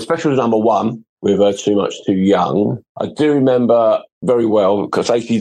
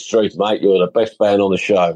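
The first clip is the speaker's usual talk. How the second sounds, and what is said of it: Bad imitation Australian accent. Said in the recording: “that's my bad Australian accent”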